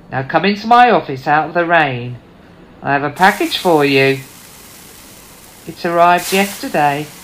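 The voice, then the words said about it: Unconvincing British Norfolk accent. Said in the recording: “the British Norfolk accent, but something didn't ring true. He didn't sound like a local to me.”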